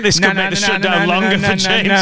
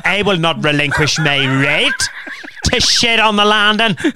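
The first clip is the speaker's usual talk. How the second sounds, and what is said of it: Put-on Northern Irish accent. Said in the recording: “that's my Northern Irish accent ... It's actually your best one”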